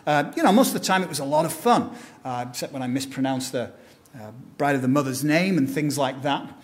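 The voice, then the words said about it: British accent, not posh. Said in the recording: “my sophisticated British tone ... back in England, my accent isn't considered posh. It'd be like being from Alabama or something”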